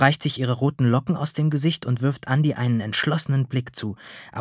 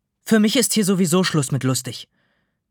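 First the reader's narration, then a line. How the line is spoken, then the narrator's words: Saleswoman snapping back. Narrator (German): schnauzt die Verkäuferin zurück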